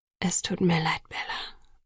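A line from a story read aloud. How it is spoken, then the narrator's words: Whispering. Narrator (German): flüsterte er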